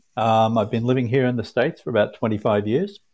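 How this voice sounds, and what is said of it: Australian accent. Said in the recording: “as you can tell from the accent,... I'm from the other side of the equator down in Australia”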